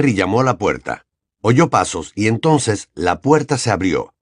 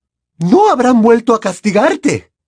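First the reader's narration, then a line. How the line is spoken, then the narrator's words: Alarmed exclamation. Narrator (Spanish): exclamó inmediatamente, alarmada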